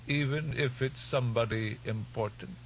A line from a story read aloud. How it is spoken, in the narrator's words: the old woman asked in her wavering voice